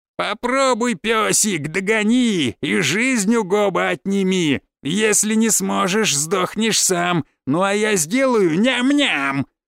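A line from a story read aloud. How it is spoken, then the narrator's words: Taunting laughter. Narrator (Russian): Хохотал он, подразнивая монстров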